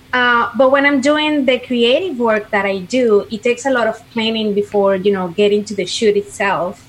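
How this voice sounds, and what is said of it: Venezuelan-accented English. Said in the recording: “clearly that's not an Orlando, Florida accent ... I'm from Venezuela”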